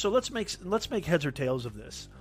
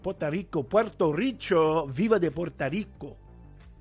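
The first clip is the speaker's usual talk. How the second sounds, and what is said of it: Poor put-on Puerto Rican accent. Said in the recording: “Puerto Rican ... That's a terrible accent.”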